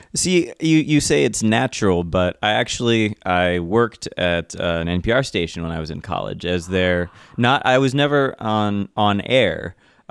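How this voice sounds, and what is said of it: Natural radio voice. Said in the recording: “He has the most natural radio voice I've ever heard.”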